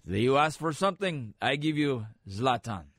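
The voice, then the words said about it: Imitating Zlatan, not-Swedish accent. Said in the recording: “I'm using an accent that's not Swedish because he's Swedish. I got to listen to him more to get the accent down.”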